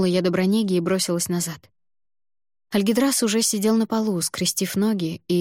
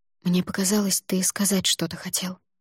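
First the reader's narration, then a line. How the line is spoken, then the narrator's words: Whispered. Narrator (Russian): зашептала я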